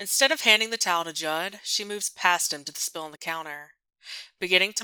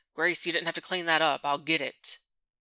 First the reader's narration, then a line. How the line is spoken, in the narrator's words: Judd sighs